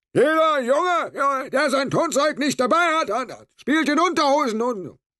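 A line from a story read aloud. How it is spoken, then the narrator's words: Called through a megaphone. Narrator (German): hob er das Megafon an die Lippen und rief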